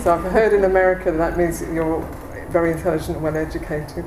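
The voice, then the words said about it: English accent. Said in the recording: “I've got an English accent.”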